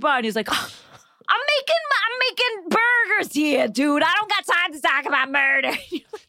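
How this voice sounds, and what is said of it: Put-on gruff tough-guy accent. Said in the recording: “accent work you're doing ... It's a lot of accent ... You sound like Frank Sr. to me.”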